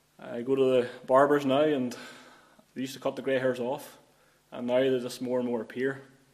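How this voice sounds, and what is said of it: County Armagh accent. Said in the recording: “I was born in County Armagh. You maybe can detect that from the accent.”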